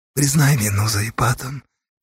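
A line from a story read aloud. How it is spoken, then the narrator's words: Quiet request. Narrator (Russian): тихо попросил Меркул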